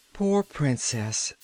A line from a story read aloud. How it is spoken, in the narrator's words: sighed Trot